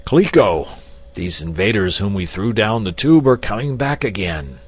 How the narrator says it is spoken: he exclaimed

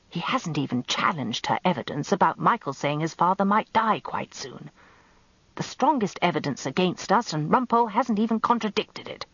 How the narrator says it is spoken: Danny whispered in my ear

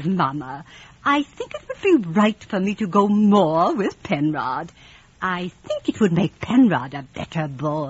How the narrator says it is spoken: Georgie looked up at me so sweetly after his prayers and said

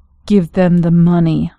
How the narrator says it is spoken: said, through clenched teeth

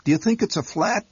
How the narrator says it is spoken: my mother chirped helplessly

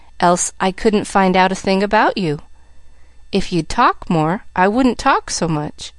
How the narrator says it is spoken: retorted Pollyanna calmly

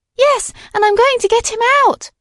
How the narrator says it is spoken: exclaimed Madeline

